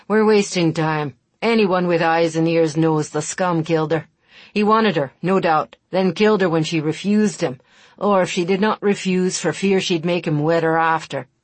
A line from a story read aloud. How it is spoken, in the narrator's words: The man who claimed to be the murdered girl's stepfather spat angrily and interrupted